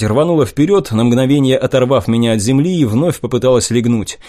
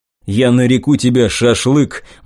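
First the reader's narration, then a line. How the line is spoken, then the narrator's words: Gloomy proclamation. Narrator (Russian): мрачно провозгласил я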